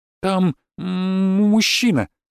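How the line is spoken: Halting, stammering speech. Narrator (Russian): запинаясь, проговорила она

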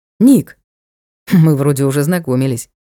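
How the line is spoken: Snorting lord. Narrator (Russian): хмыкнул лорд

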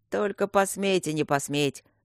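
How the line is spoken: Threatening, coughing. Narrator (Russian): угрожающе прокашлял лорд Дармоншир

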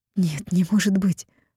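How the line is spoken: Breathed out. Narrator (Russian): выдохнула

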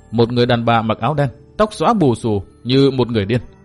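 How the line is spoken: Cold. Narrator (Vietnamese): Tư Mã Minh lạnh lùng nói

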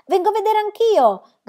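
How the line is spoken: Shout. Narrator (Italian): gridò Tommy

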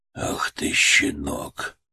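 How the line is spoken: Hissed through teeth. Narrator (Russian): Он прошипел это сквозь зубы, его губы побелели

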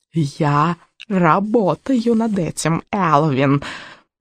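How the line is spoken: Hoarse rasp. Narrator (Russian): прохрипела ведьма

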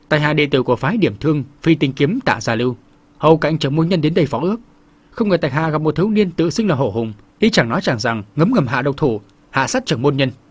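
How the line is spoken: Sullen speech. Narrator (Vietnamese): vẻ mặt hậm hực cũng bước vào khoang thuyền chắp tay chào chung quanh một vòng rồi cất tiếng nói

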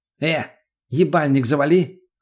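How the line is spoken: Rude snapping retort. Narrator (Russian): огрызнулся наркоман

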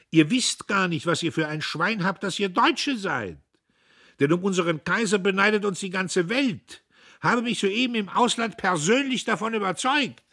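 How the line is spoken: Shout. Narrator (German): rief er

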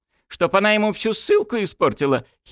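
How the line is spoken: Giggling. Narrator (Russian): хихикнул Чайкин

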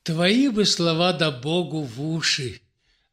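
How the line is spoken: Sighing. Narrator (Russian): вздохнула Александра Петровна

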